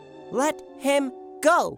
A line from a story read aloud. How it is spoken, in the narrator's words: cried